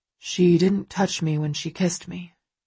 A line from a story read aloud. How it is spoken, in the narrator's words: he murmurs